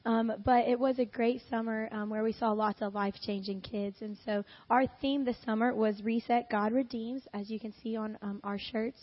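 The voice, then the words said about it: Hoarse, strained voice after losing it. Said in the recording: “I did lose my voice. So bear with me. I'll try not to cough too much.”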